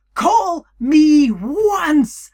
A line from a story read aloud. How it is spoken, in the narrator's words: Hades shouted